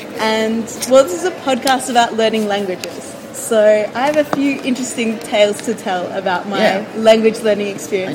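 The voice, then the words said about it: Australian English accent. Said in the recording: “from my accent, you might be able to tell that, one, I'm not Chilean ... I'm from Australia”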